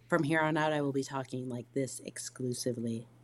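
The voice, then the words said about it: Calm, subdued radio voice. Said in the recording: “radio voice ... It's more of a, it's like an NPR voice. It's like this calm, subdued.”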